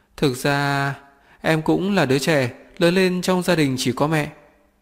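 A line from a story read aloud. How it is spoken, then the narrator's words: Smiling. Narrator (Vietnamese): tôi ngửa đầu mỉm cười với anh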